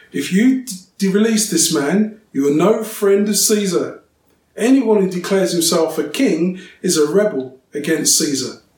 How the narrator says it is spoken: the Jewish leaders shouted

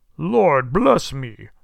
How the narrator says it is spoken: cried the old gentleman, as if his breath were taken away

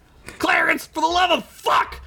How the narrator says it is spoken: Ugla screamed

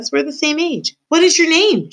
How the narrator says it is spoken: she shouted

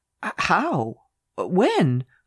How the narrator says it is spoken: I gasped

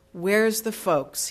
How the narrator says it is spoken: he asked

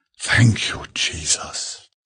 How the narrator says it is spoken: she whispered

